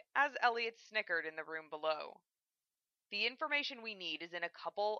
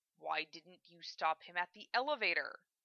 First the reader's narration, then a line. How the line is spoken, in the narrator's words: Elliot mumbled